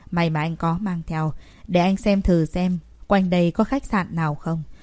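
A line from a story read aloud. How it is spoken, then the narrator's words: Resigned sigh. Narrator (Vietnamese): Uất Chỉ Diệc Thù bất đắc dĩ thở dài một tiếng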